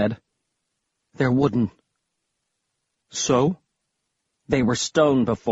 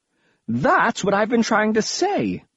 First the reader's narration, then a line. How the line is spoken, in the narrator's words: Prince Rikers exclaimed